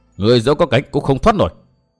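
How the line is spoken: Snorting, then shouting. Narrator (Vietnamese): Từ Mã Minh hừ một tiếng rồi quát

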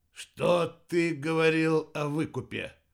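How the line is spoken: Hoarse vampire question. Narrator (Russian): хрипло спросил вампир

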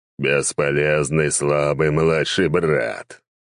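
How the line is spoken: Growling. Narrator (Russian): прорычал Кердинер

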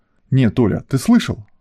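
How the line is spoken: Indignant question. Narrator (Russian): возмущенно спросил олигарх

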